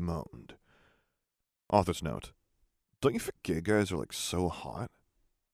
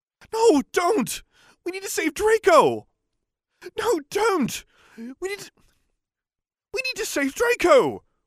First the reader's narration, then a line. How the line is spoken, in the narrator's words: begged